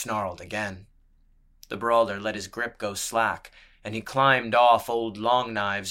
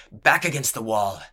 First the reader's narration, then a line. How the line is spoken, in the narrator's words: he barked